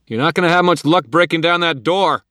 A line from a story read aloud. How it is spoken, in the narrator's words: called out